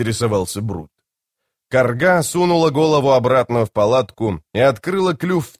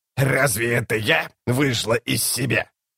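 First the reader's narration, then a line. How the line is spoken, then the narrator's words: Growling. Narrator (Russian): С рычанием он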